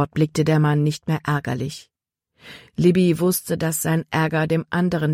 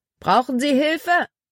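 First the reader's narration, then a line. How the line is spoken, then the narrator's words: Called out. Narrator (German): Er rief einem Rothemd zu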